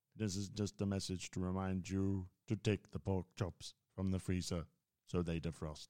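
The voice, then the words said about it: Poor imitation of another person's voice. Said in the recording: “a really bad Alan Rickman impersonation”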